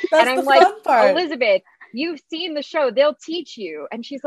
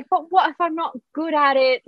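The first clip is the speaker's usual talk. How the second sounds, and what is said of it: Poor imitation of another person's accent. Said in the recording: “totally butchering her accent”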